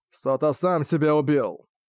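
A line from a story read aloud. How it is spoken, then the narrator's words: Blurted rudely. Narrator (Russian): грубо выпалил Ямадзи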